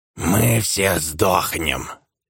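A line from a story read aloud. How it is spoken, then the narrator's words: Hoarse, uncertain. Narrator (Russian): Хрипло и неуверенно произнес один из оборванцев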